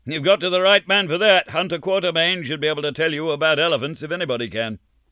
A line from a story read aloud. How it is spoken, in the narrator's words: called out somebody who was sitting near me